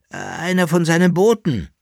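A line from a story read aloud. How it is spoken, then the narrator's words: Reluctant soft groan. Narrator (German): sagte der Kaiser, der den Teufel nicht gern beim Namen nannte, mit einem leisen Stöhnen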